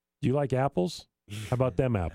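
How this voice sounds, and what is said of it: Matt Damon impression, northeastern accent. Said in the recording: “Matt Damon... a massive northeastern accent... that accent”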